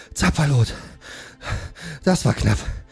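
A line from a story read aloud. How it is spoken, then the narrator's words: Panting from exertion. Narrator (German): sagte Sengol, der vor Anstrengung keuchte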